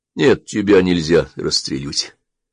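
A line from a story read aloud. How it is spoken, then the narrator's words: Calm. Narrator (Russian): спокойно проговорил он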